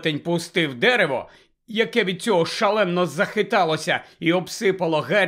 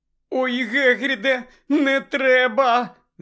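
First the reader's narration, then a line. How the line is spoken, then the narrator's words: Moaning plea. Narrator (Ukrainian): застогнала Герміона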